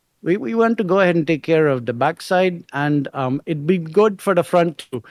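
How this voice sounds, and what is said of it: Imitated Indian accent. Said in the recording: “he's an Indian guy... that accent”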